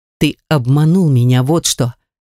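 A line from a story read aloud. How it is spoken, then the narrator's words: Sharp restrained anger. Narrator (Russian): прикрикнула, с трудом подавляя желание ударить бывшего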